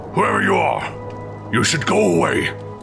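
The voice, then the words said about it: Intimidating, threatening voice. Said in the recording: “he called out to the unwanted visitor in an intimidating voice”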